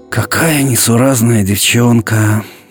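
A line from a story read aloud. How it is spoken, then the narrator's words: Mother sighing. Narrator (Russian): вздохнула мама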